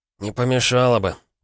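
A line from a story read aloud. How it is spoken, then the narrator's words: Gruff mutter. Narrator (Russian): буркнул Егор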